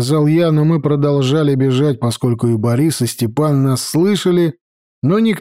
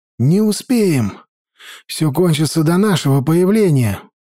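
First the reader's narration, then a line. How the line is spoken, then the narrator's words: Breathed out. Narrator (Russian): выдохнул он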